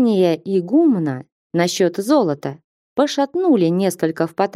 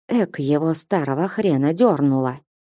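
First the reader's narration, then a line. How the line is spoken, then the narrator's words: Whisper. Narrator (Russian): шептал паломник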